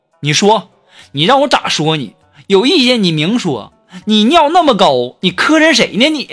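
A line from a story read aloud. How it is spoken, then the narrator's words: Yelling. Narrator (Chinese): 我男朋友就说，就对我吼啊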